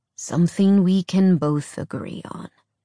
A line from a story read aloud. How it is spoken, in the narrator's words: Hunter said solemnly